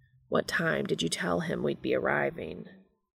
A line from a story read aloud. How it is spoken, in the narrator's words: Dean mutters